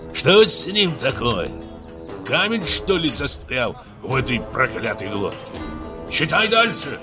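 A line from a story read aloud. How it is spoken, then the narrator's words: Angry crowd hissing. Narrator (Russian): Злобно зашипели в кучке такижан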